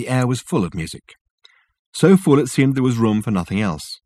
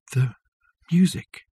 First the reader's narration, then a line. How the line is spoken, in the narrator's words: whispered Richard